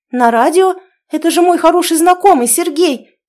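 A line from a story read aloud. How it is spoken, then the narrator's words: Involuntary exclamation. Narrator (Russian): вскрикнула невольно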